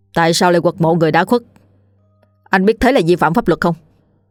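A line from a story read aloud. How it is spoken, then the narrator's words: Stern. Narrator (Vietnamese): Anh cảnh sát nghiêm giọng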